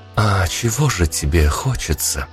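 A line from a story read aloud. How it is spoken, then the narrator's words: Quiet, uncertain question. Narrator (Russian): тихо спросила она, точно растеряв прежнюю уверенность и превосходство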